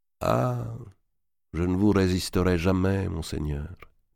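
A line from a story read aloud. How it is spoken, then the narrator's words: Sighing. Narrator (French): dit Tholoméï en soupirant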